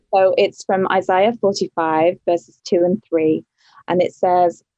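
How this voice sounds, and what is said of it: British English accent. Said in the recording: “an accent here from ... she was formerly from England ... she's got a great accent. I love a British accent.”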